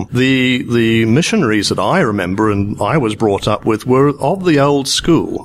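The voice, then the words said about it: British colonial accent. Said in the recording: “I was born in Kenya when it was a British colony, which is where this accent comes from.”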